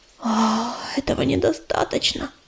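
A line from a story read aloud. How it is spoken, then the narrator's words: Frightened whisper. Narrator (Russian): испуганно прошептала мотылинка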